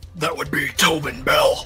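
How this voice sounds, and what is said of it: Imitates another person's voice. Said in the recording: “good Sean Connery impression”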